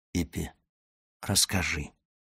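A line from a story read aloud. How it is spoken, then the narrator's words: Whisper. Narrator (Russian): шепнул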